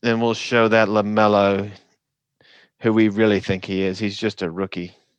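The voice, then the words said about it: Put-on Australian accent, fairly good. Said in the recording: “I need to work on my Australian accent. ... That's pretty good. Good enough.”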